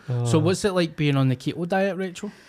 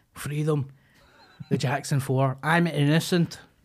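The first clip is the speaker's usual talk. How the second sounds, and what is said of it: Poor put-on Irish accent. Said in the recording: “That was a terrible Irish accent.”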